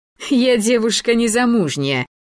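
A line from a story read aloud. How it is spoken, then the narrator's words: Laughing. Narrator (Russian): засмеялась она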